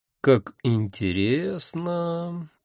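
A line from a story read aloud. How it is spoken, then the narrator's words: Drawl. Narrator (Russian): протянул я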